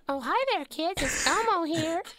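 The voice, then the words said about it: Elmo impression. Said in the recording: “Elmo impersonations ... Can you give us your Elmo impression? ... Now that is good. ... the Elmo voice”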